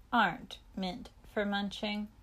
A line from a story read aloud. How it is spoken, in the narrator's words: he muttered